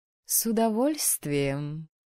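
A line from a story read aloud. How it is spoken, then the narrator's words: Purring. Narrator (Russian): промурлыкала брюнетка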